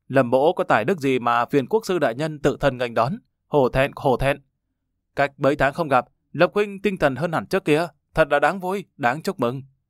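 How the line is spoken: Hearty laughing reply. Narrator (Vietnamese): Lâm Văn Vinh ha ha cười lớn, đáp

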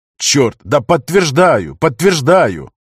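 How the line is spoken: Frantic yell. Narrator (Russian): Заорал Виктор

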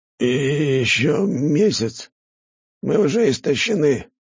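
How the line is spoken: Timid mumbling. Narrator (Russian): вжав голову в плечи, промямлил невысокий мужчина

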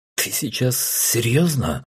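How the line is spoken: Relieved exhale. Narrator (Russian): выдохнул с облегчением Эдгард

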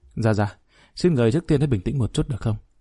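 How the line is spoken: Smiling. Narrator (Vietnamese): Niệm Băng mỉm cười nói

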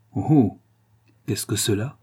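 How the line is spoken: Murmur. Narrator (French): murmura-t-il

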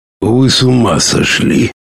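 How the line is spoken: Dejected. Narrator (Russian): уныло отозвался дракон

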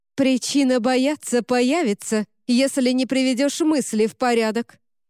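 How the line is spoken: Bark. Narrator (Russian): рявкнула она

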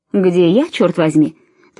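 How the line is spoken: Mocking mimicry. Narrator (Russian): передразнивающим тоном отозвался Роджер

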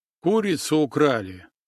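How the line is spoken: Cold. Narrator (Russian): холодно начал

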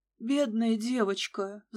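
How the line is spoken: Sigh. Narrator (Russian): вздохнула Полина Степановна

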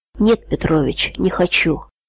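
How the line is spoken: Quiet. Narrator (Russian): тихо сказал он

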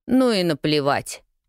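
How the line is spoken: Snort. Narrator (Russian): фыркнул

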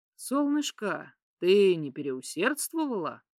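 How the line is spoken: Tender question, bear. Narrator (Russian): нежно спросил ее медведь

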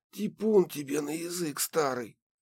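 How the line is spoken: Banshee's hoarse rasp. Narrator (Russian): прохрипела банши

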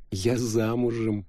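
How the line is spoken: Happy laughter. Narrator (Russian): счастливо рассмеялась Лариса

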